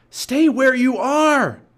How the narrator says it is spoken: Jack shouted

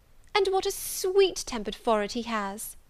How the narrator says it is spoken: cried Louisa

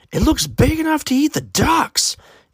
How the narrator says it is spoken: Aiden's aunt exclaimed

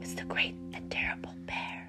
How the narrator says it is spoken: whispered Finn

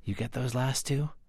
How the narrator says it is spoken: Confucius whispered to his scribe

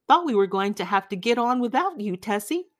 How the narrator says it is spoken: Summers said cheerfully

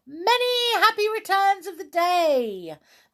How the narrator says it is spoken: they shouted to one another

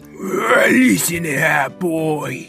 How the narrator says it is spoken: snarled Snarl

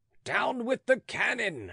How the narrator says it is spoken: howled 20,000 throats

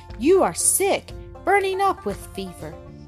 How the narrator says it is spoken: cried with anguish in her tones

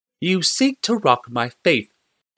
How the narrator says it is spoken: said Primata Delphine calmly

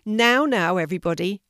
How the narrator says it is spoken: shouted Finnegan

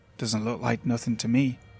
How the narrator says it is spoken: he said

